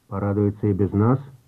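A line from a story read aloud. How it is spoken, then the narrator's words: Grumbled. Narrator (Russian): буркнул генерал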